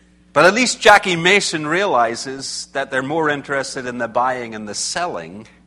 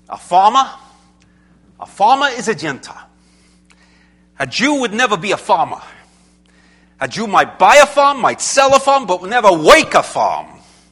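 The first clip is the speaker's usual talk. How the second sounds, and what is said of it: Poor Jackie Mason accent impression. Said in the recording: “my accent's terrible, I know.”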